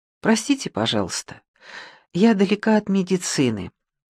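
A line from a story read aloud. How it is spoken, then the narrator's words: Calm. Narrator (Russian): спокойно скажите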